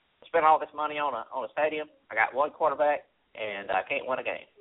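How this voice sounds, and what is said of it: Jerry Jones impression. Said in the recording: “should do a Jerry Jones impersonation”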